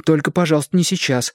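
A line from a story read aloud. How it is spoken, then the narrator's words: Frightened reply. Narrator (Russian): испуганно ответил Шестипалый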